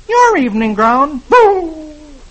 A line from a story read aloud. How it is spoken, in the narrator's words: Dagwood exclaims